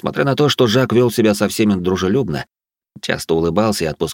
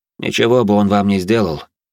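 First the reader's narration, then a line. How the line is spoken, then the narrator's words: Calm, secretly unsure. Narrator (Russian): спокойно добавил я, хоть и не был до конца уверен в том, что говорил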